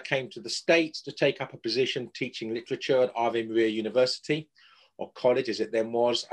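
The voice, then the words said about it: English accent. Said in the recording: “I'm a native of England, as my accent might betray.”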